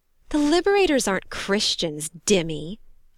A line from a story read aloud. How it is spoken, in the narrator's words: she snorted